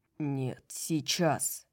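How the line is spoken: Growl. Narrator (Russian): прорычал Хант

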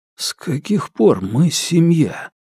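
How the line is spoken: Whisper. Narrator (Russian): прошептал Фил

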